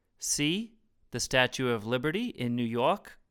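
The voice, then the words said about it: Put-on New York accent. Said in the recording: “What was that accent ... that was my New York accent.”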